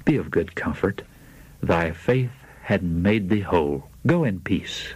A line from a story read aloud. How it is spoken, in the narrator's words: said gently